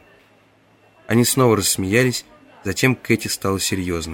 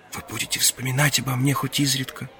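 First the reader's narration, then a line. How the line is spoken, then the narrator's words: Whispered. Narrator (Russian): прошептала она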